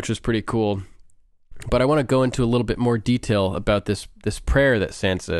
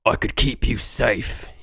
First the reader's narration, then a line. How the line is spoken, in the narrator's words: he rasped